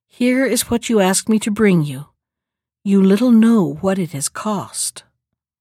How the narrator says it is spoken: saying sadly

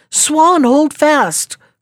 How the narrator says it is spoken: called out Peter

